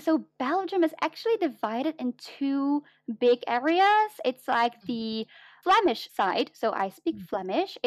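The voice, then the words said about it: Slight non-native English accent. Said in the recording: “you have a little bit of an accent.”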